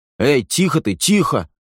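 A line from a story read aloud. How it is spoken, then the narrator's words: Exclamation. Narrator (Russian): воскликнул Хэмик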